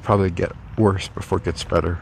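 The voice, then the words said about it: Voice off, phlegmy. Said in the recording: “you can probably tell my voice is a little off today... a lot of phlegm, a lot of really thick saliva”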